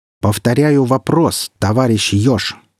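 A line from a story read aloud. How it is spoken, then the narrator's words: Stern reproach. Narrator (Russian): строго наехал Ильин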